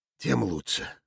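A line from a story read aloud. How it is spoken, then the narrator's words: Muttered from distance. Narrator (Russian): пробормотал из грина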